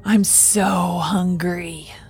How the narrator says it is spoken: she hissed

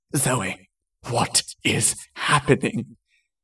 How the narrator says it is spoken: Jason asked, in a breathless voice

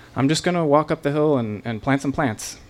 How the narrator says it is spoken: calmly turned my head and toward him and said

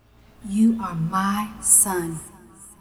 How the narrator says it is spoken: she whispered to him

